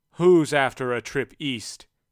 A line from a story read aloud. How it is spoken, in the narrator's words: had bellowed